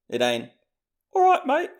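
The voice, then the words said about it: Failed attempt at Liverpool accent. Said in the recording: “I can't do it. I tried. ... I just tried to do a Liverpool accent. It was not that.”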